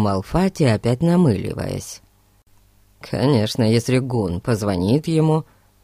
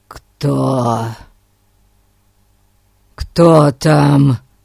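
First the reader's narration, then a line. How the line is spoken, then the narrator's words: Hoarse croak. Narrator (Russian): прохрипел он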